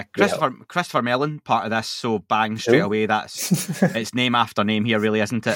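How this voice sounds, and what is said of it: Scottish accent. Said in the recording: “just in the Scottish accent”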